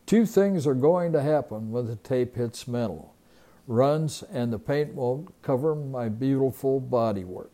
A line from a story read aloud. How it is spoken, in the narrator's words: he said as he chuckled